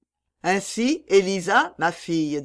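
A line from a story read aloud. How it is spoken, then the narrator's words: Plain, husband. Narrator (French): dit son mari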